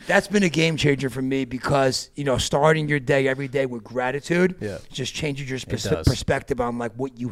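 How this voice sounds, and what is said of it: New Jersey accent. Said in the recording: “They got to hear the Jersey fucking accent”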